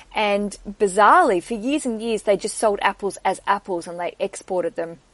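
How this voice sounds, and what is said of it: Australian accent. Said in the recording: “in Australia, where I'm from, if you didn't know my accent, I grew up in Tasmania”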